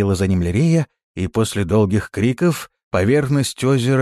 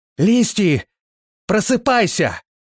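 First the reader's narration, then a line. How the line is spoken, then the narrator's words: Louder shout. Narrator (Russian): еще громче закричала Лирея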